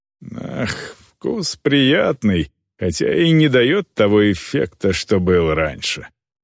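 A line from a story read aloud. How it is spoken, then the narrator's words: Sighed. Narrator (Russian): вздохнул Хрунг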